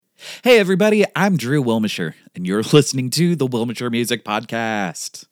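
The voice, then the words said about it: Exaggerated radio announcer voice. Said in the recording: “That's such a dumb radio voice.”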